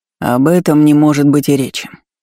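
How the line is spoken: Answered dryly. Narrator (Russian): сухо ответил он

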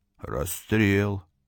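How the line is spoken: Muffled, hollow voice. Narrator (Russian): произнес он глухо

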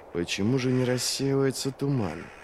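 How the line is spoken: Muttered through teeth. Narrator (Russian): процедил Вест

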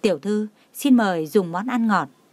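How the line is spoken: Smiling, respectful, soft. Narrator (Vietnamese): cô mỉm cười tôn kính kêu nhỏ

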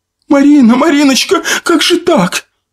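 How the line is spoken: Mother wailing. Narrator (Russian): Завопила мать

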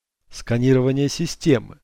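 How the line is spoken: Computer whisper. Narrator (Russian): шепнул компьютер

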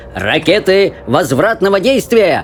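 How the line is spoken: Roared. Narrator (Russian): взревел мистер Уонка

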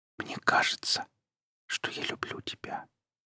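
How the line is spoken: Shy whisper. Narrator (Russian): стесняясь, прошептала она

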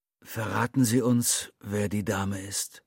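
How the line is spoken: Plain. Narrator (German): fragte der Künstler

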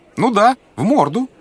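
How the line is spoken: Loud repetition. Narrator (Russian): громко повторил Эсфирь глуховатому старичку

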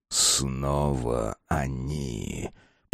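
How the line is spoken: Through gritted teeth. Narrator (Russian): процедил капитан-самаритянин

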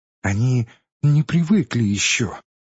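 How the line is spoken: Timid, sweet voice. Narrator (Russian): произнесла робким и умильным голосом одна из приживалок

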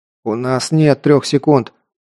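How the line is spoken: Muttering. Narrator (Russian): пробормотал Александр

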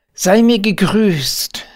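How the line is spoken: Calling out. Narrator (German): rief

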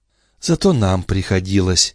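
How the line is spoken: Soft objection. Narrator (Russian): мягко возразила Юнона

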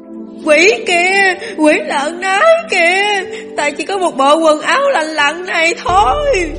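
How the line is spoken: Loud wailing sobs. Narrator (Vietnamese): Y lại càng gào khóc ầm ĩ

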